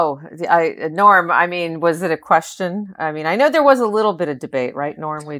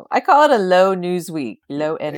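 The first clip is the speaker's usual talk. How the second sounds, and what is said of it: Imitates another person's voice. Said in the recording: “I love your Trump impression.”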